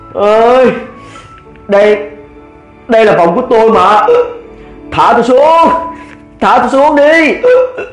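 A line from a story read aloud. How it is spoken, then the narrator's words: Loud yelping cries. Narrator (Vietnamese): Miệng nó cứ la lên oai oái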